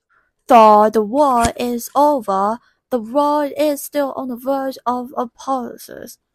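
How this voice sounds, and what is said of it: Put-on British accent. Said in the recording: “that British accent”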